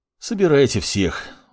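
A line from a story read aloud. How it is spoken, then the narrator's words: Sighing. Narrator (Russian): вздохнул маг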